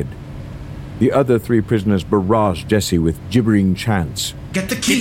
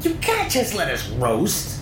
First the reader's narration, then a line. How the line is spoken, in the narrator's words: Nick squealed